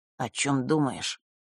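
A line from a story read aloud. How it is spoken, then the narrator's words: Quiet question. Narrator (Russian): тихо спросил Маар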